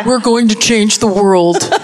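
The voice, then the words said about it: Imitates another person's voice. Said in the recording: “I'm doing the Elizabeth Holmes voice”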